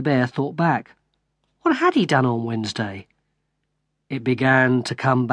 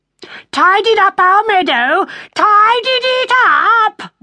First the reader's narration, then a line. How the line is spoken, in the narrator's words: the rabbit shouted